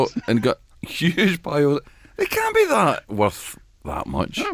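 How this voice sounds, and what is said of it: Usual voice. Nothing is said of it.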